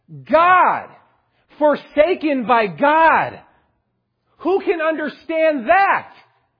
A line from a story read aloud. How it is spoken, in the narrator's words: he finally shouted out